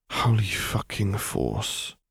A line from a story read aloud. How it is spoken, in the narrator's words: he muttered quietly